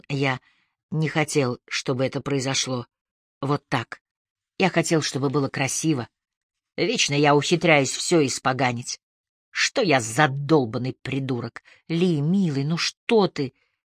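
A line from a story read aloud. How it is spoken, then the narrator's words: Whispered reply. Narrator (Russian): зашептал в ответ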